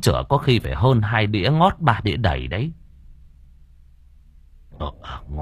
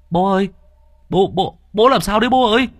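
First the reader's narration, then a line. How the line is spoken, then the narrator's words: Alarmed shriek. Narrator (Vietnamese): Thằng Luận thấy biểu hiện của bố kỳ lạ thì rú lên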